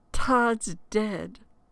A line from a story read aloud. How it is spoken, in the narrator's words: I screamed at the top of my lungs